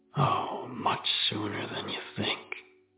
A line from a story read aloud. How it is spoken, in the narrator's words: whisper